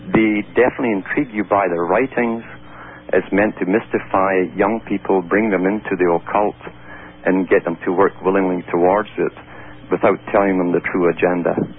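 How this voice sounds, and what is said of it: Scottish accent. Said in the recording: “I detect a little, is it an Irish accent? ... That's Scottish.”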